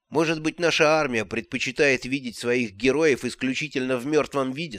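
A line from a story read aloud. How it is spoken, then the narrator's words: Plain. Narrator (Russian): сказал он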